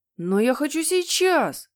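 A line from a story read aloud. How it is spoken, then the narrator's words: Yelling. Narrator (Russian): завопил Генри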